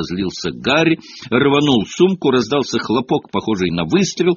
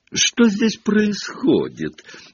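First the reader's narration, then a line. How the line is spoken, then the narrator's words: Mocking affected drawl. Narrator (Russian): насмешливо проговорил Малфой, манерно растягивая слова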